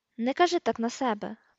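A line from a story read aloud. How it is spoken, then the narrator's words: Muttering. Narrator (Ukrainian): пробурмотів Рон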